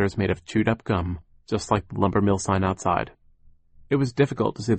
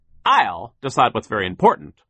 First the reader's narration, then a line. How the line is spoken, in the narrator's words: Sir barked